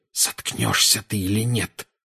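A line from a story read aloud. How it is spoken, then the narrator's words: Hissing. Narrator (Russian): прошипел Гарри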